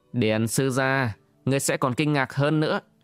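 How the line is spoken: Cold laugh. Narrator (Vietnamese): Vương Hoa cười lạnh lùng nói

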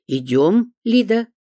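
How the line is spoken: Sharp bark. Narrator (Russian): рявкнула Нора Георгиевна

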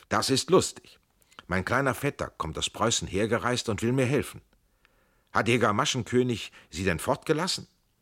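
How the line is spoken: Called out. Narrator (German): Er rief

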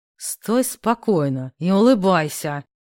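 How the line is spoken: Hissed. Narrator (Russian): Зашипел мой кавалер

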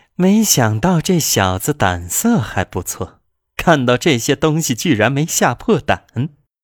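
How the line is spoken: Amused, smiling. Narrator (Chinese): 那个青年依然饶有兴趣地……笑着说

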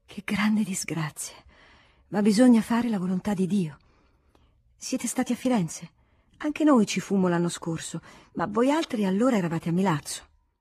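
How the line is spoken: Sighing. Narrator (Italian): sospirando

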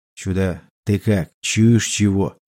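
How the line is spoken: Quiet whisper from behind. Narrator (Russian): раздался тихий шепот из-за спины

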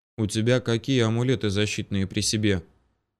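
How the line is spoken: Quiet question. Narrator (Russian): тихонько поинтересовался у меня Мстислав

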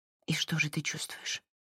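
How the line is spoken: Whispered. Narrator (Russian): прошептала Марин

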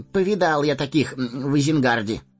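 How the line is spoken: Grunting scoff. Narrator (Russian): хмыкнул Мэри

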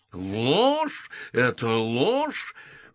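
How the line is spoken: Roaring. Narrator (Russian): взревел Дункан

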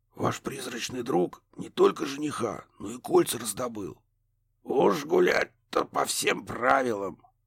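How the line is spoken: Whisper from inside. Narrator (Russian): шепотом подтвердили изнутри

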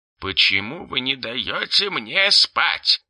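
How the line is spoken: Grumbling displeased goblin. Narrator (Russian): заворчал в трубку недовольный гоблин

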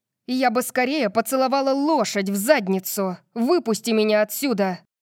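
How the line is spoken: Snapping retort. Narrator (Russian): Огрызнулась я

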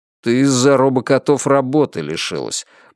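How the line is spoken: Grumbled. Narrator (Russian): буркнул Бехар

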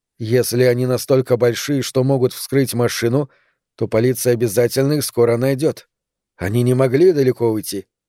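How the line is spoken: Calm. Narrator (Russian): спокойно сказала

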